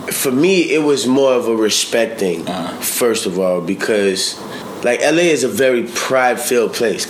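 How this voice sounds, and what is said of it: New Orleans accent. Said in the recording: “you being from New Orleans ... I can hear the accent”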